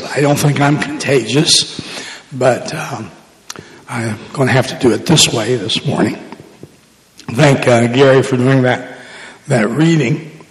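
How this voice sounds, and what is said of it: Hoarse, nearly lost voice. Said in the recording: “I have lost my voice... save as much voice as I have”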